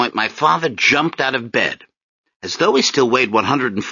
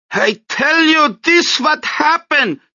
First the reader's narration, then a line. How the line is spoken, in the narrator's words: Desdemona screamed at Milton